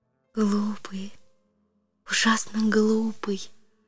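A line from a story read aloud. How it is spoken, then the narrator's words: Whispering. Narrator (Russian): шептала она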